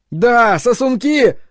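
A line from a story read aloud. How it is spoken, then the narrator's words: Even louder shout. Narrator (Russian): еще громче крикнул он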